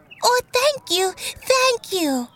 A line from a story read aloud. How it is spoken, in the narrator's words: Frog grabbed his hand excitedly and shouted